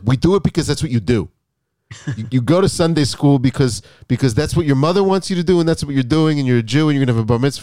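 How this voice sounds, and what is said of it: Brooklyn accent. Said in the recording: “his like Brooklyn accent.”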